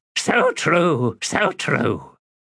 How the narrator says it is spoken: The great raven cackled, then said

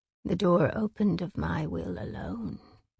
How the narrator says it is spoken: Lanthus purred

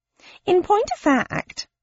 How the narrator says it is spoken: piped up Pickwick

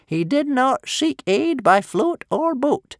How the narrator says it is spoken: cried Old Wrinkly solemnly in his ancient old quavering voice

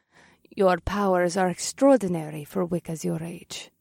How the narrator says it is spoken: Cersei said in a soft voice

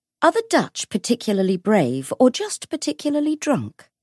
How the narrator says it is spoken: She asked, her voice sharper than she'd intended

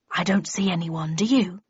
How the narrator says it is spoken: he hissed

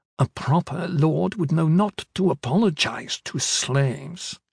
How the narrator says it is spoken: She muttering none too quietly

